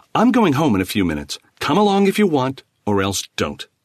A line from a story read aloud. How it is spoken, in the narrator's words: Stung by the morose dismissal, Khan snapped